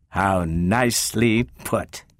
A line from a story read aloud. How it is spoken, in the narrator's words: sneered Calvin